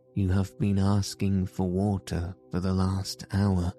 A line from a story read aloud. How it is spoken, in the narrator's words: he said